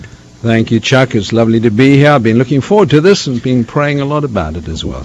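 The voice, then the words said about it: South African accent. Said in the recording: “accent that you bring. Is that a New Zealand accent, a South African accent ... it's a South African accent. It's a South African accent”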